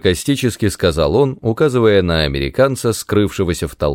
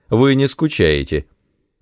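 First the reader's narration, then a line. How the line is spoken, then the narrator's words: Calm reply. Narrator (Russian): Она спокойно ответила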